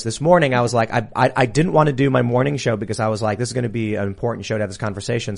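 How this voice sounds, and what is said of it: Slightly raspy voice. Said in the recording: “my voice is a little raspy,”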